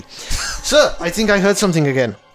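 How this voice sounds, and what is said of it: Bad put-on German accent. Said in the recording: “the German accent, which I can do. I can definitely do a German accent. Badly.”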